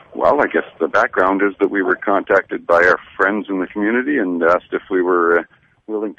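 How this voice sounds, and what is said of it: Hoarse voice from laryngitis. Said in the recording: “a guy with laryngitis”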